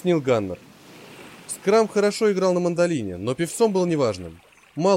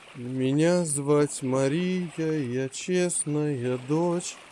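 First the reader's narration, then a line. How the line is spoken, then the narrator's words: Tuneless mumbling. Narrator (Russian): мямлил он безо всякой музыкальности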